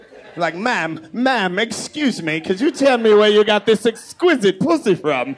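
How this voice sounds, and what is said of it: Put-on accent. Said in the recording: “I had a whole accent.”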